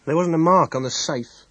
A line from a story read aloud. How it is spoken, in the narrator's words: Inspector Dale said quietly